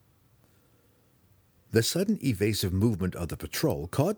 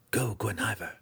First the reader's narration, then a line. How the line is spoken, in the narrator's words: he whispered to the cat